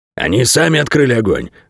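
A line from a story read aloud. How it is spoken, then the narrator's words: Dog's snort. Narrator (Russian): фыркнул пес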